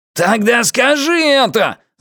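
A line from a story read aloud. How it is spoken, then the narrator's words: Yelling. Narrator (Russian): заорал Пузан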